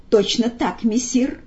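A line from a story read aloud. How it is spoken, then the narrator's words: Quiet. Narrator (Russian): негромко ответил Фагот Коровьев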